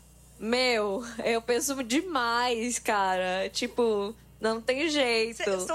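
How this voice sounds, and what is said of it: Usual voice. Nothing is said of it.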